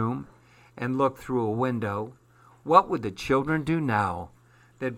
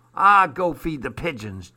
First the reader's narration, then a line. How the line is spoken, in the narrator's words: jeered Armand